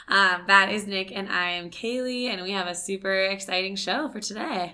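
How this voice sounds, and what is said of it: Strained, fading voice. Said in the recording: “Sorry my voice sounds this way today. ... I'm losing it.”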